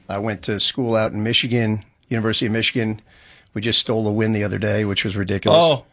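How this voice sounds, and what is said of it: Strong New Jersey accent. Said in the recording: “that crazy accent ... Crazy accent. If you can't tell, I'm from Jersey. I was born in Brooklyn.”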